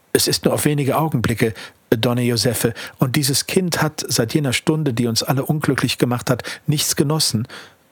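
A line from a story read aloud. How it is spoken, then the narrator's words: Plain. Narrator (German): so sagte sie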